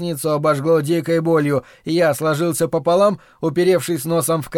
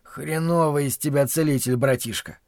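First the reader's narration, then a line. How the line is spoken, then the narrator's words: Through gritted teeth. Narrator (Russian): Процедил я сквозь зубы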